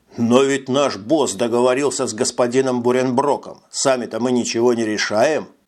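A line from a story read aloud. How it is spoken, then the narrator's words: Plain. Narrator (Russian): сказал Робби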